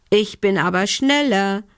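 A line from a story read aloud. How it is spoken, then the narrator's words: Called out. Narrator (German): rief Lumbi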